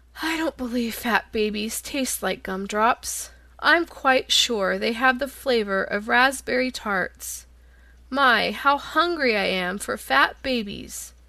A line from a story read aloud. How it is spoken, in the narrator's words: The lion grunted disdainfully